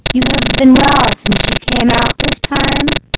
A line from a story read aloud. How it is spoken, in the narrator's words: he asked